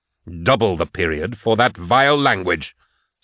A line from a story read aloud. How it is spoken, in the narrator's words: Cyrus barked